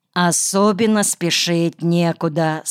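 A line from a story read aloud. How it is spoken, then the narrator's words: Plain. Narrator (Russian): сказала она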